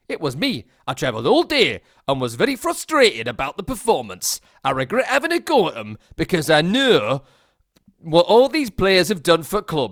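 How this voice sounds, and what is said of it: Attempted Geordie accent drifting Midlands. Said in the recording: “I won't do the accent. Maybe I will. ... No, I can't do it. Got to get into the Geordie. ... No, I've gone a bit Midlands.”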